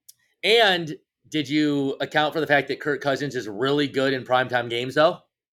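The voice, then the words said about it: Sarcastic delivery. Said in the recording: “obviously I was being sarcastic on that”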